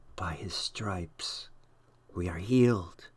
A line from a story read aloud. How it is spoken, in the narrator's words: Someone next to Jonathan whispered